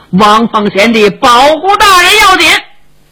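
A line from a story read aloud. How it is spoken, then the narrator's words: Loud shout. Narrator (Chinese): 石金生高声喊嚷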